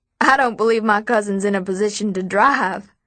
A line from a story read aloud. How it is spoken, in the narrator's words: William laughs